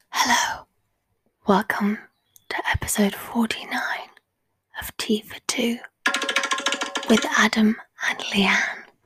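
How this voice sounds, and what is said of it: Whispering. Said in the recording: “Why are we whispering? ... Because it's ASMR day.”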